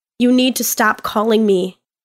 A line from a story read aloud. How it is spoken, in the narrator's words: I say, my tone hard